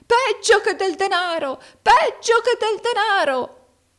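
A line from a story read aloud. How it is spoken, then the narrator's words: Old man shouting. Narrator (Italian): gridò il vecchio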